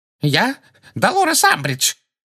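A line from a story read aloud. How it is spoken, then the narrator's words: Shrill terrified voice. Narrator (Russian): ответила Амбридж визгливым, насмерть перепуганным голосом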